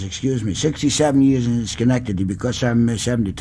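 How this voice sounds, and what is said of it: Russian Jewish immigrant accent. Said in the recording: “I can't rid myself of this accent ... I only lived in Russia 4 years ... I sound Jewish”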